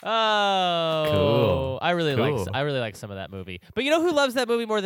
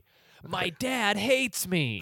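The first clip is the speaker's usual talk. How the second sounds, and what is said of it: Impression of an animated movie character. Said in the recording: “my impression of Mario from that movie ... Good impression.”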